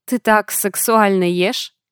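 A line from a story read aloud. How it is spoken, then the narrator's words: Laughing. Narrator (Russian): Рассмеялся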